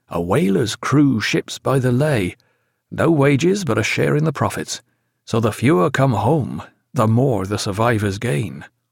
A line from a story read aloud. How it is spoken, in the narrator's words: said Granger in a low, confidential tone